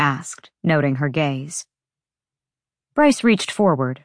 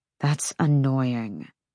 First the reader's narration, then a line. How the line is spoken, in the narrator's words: he said through his teeth